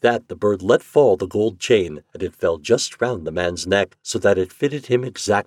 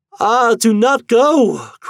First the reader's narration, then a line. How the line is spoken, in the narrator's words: cried the wife